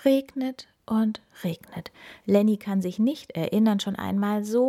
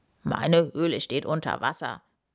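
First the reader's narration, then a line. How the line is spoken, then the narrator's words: Grunted. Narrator (German): grunzt Edward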